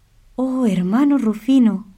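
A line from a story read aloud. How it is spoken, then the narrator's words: Exclamation. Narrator (Spanish): exclamó Francisco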